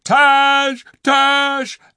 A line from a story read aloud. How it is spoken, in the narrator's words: The Calorman soldiers outside screamed